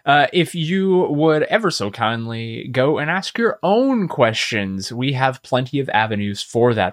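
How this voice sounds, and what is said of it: Announcer voice. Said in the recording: “get on my announcer voice.”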